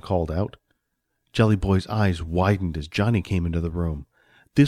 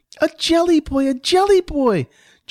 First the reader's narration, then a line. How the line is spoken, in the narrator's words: Johnny squealed in joy